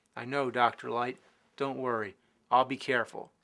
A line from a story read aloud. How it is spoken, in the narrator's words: said Mega Man